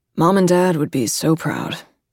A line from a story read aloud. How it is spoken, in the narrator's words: he says dryly